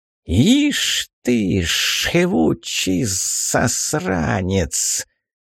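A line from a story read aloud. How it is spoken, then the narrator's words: Viper-like hiss, old witch. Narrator (Russian): приветствовала гадючим шипением Баба-Яга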